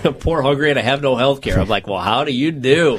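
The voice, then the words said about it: Put-on Cajun accent. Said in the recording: “that Cajun accent”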